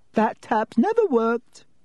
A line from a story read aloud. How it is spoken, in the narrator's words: said Myrtle brightly